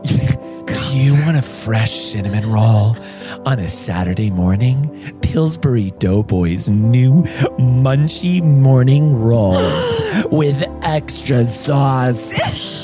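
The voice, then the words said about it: Ad voice turning drag queen. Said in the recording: “You turned into a drag queen at the end.”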